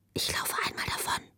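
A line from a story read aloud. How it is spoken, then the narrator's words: Whispered. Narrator (German): flüsterte sie ihr zu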